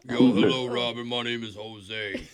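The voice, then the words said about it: Deliberately deep voice. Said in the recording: “deep voice”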